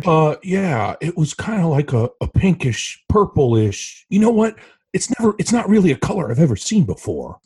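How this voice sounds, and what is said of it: Nicolas Cage impression. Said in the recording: “A great impersonation.”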